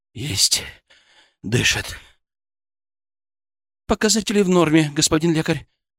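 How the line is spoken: Breathless disbelief. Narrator (Russian): выдохнула Светочка, не веря своим глазам

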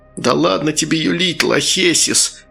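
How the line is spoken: Nasty giggle, old man. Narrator (Russian): старик в клетчатом пиджаке противно хихикнул

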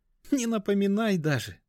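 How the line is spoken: Laughing. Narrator (Russian): засмеялась она

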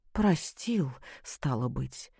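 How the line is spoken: Breathed out. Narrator (Russian): только и выдохнула Любовь Сергеевна

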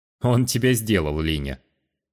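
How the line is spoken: Pleased snort. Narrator (Russian): Довольно хмыкнул Кает

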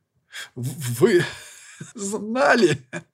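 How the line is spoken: Strained, shaking with laughter. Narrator (Russian): Кое-как, наконец, выдавил из себя, все еще содрогаясь от приступа смеха

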